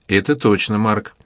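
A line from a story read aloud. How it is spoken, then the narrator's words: Plain. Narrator (Russian): ответил Бэби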